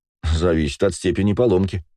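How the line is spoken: Snorting, wry. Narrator (Russian): хмыкнул я

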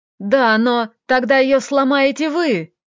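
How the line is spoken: Yelled. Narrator (Russian): заорал Роман

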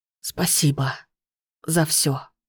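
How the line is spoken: Whisper. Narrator (Russian): прошептал Тервистер, уже не открывая глаз

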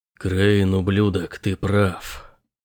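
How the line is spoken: Muttered. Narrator (Russian): пробормотал

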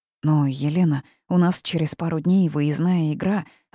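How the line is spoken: Timid. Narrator (Russian): робко подала голос я

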